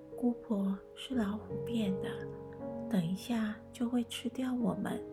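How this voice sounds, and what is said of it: Whispered, quiet voice. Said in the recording (Chinese): “小声地说”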